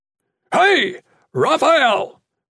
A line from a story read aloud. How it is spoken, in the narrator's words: Bernard yelled